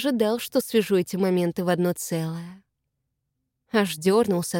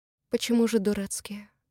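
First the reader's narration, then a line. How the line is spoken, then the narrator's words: Muffled question. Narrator (Russian): Глухо спрашиваю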